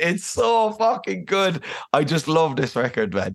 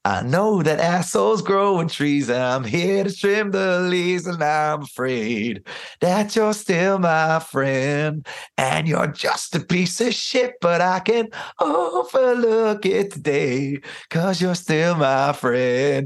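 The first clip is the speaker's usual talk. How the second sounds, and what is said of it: Decent Patton impression, cadences right. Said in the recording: “it's not the worst Patton impression in the world ... you got the cadences kind of down”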